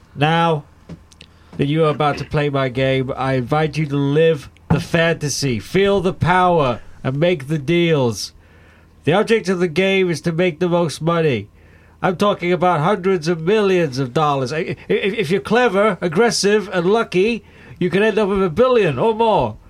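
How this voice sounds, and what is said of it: Imitates another person's voice. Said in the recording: “I've got a bit of a cold, and my Donald Trump impression is not amazing”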